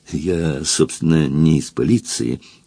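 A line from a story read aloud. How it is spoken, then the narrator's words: Embarrassed mutter. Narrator (Russian): покраснев, пробормотал Фандорин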